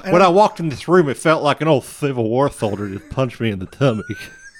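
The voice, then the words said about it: Impression of a TV psychic. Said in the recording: “Chip Kelly, the best psychic ever, that I always used to do an impersonation of”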